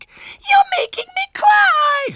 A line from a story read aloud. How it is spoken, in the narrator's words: sobbed Violet Elizabeth